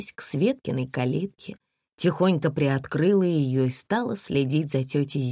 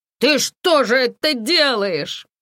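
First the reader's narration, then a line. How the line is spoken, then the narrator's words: Shouting. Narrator (Russian): закричала она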